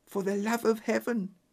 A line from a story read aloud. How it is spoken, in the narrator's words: she whispered